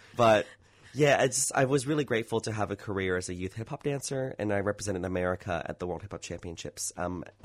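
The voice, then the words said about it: Southern California American accent. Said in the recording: “I can hear Southern California in your accent. ... Yeah, you can hear it now.”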